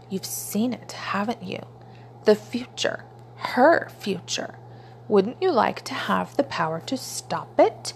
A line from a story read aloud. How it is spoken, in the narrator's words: Time murmured